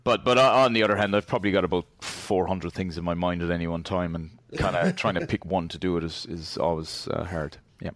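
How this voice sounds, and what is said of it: Foreign accent. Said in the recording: “from your accent, you sound like you've spent some time overseas”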